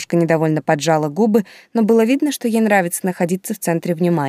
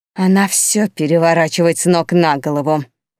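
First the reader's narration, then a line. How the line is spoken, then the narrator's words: Hissed. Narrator (Russian): прошипела Тильда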